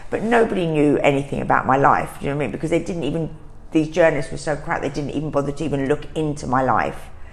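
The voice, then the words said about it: London East End accent. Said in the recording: “everyone just thought from my accent, that I was just a Londoner girl ... this East End girl”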